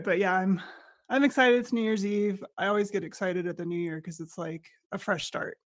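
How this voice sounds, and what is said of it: Raspy voice from a head cold. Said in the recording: “I got a head cold and I'm a little raspy... I'm not losing my voice. I just don't have my full voice”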